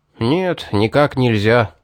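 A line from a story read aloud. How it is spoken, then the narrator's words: Sighing. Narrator (Russian): вздохнул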